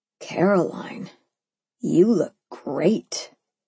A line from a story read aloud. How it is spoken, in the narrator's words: he murmured